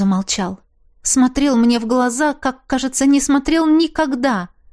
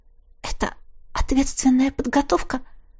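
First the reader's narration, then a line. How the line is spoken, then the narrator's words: Suddenly hoarse voice. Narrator (Russian): спросила я внезапно севшим голосом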